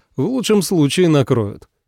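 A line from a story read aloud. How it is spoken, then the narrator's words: Woman laughing, then speaking. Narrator (Russian): Женщина посмеялась этой истории и сказала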